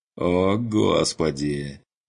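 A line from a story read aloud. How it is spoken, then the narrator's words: Groaning. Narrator (Russian): простонал Курт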